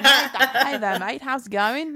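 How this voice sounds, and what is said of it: Weird put-on Australian accent. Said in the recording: “Aussie ... what was that accent ... It started weird, but it got there, all right ... It both started and ended weird. There was only weird.”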